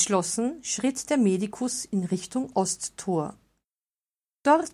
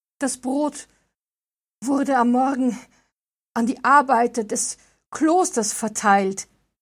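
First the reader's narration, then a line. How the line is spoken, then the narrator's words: Panting. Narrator (German): keuchte der Architekt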